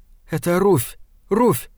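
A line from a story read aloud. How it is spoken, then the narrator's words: Frightened whisper. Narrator (Russian): сказала она перепуганным шепотом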